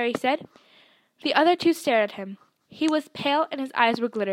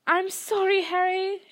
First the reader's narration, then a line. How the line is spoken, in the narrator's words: she wailed